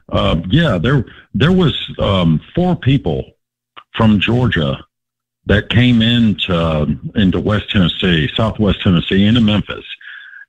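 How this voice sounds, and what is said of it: Tennessee accent. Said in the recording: “He's got the accent.”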